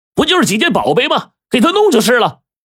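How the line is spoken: Furious roar. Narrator (Chinese): 侯大少无名火直涌啊，吼着

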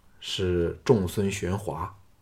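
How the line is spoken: Calm, flat. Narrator (Chinese): 项少龙淡淡的说

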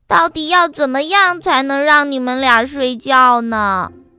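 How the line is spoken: Sighing. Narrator (Chinese): 黛拉叹了一口气说

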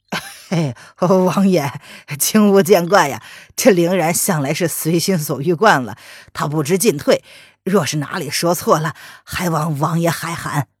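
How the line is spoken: Stiff forced laugh. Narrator (Chinese): 林奇一脸僵硬的笑着

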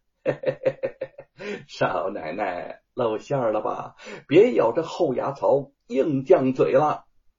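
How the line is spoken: Smug, insincere grin. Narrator (Chinese): 贼儿绝处逢生，万般得意的皮笑肉不笑的看着白雪燕说

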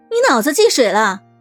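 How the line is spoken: Furious piercing shout. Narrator (Chinese): 劳拉大发雷霆，尖利的声音穿透了整个楼道

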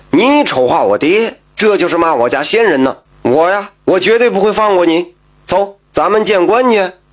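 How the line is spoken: Loud. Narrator (Chinese): 赖子大声说道

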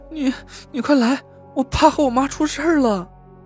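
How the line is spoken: Crying. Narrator (Chinese): 田慧文哭道

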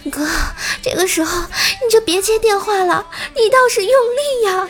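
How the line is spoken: Breathless, urgent young woman's shout. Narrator (Chinese): 公司那妹子在旁边也用着带着急促喘气的声音大喊

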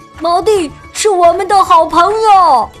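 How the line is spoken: Loud announcement. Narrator (Chinese): 大声宣布

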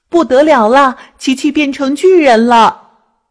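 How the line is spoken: Loud alarmed cry. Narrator (Chinese): 麻雀大声叫着

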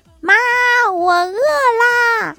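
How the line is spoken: Loud, ringing voice. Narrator (Chinese): 声音一定要嘹亮

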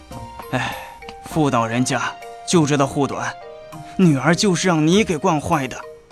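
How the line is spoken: Sighing. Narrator (Chinese): 韦德玄叹道

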